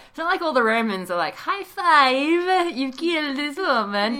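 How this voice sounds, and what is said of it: Put-on accent. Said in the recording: “I don't know why the accent.”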